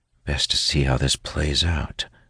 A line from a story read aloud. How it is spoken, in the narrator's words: whisper, trying my best to remain calm